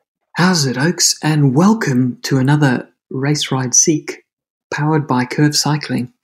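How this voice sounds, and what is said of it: Whispering. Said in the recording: “are you whispering? ... I'm whispering because I'm trying not to be stabbed by the housemates”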